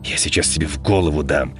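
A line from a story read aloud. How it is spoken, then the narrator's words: Growled reply. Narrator (Russian): прорычал Павел в ответ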